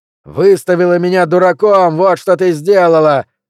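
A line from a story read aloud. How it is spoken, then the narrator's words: Young man shouting. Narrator (Russian): опять заорал парень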